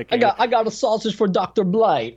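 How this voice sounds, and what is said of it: Andrew Dice Clay impression, Brooklyn accent. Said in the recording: “Brooklyn accent ... you turned into Andrew Dice Clay at the end there”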